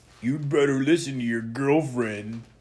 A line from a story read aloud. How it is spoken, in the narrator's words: Dennis laughed